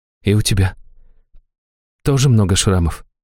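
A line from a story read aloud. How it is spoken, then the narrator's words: Quiet question from girl. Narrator (Russian): тихо спросила девушка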